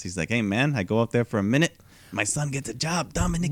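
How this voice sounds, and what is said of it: Imitates another person's voice, accent. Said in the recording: “That's always the same accent. ... I'm in character. I mean, I get in character.”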